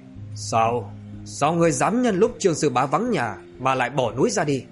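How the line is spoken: Stern scolding. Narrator (Vietnamese): Tân Lão nghiêm giọng mà trách móc

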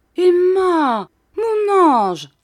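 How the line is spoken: Exclaiming. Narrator (French): s'écria Monsieur Micawber

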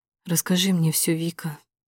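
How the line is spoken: Quiet request. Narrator (Russian): просит тихо

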